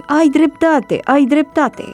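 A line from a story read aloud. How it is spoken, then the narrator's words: Toys shouting together. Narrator (Romanian): Toate jucăriile ar fi strigat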